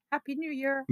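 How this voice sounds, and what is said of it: Scottish accent. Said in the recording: “a proper greeting in a Scottish accent”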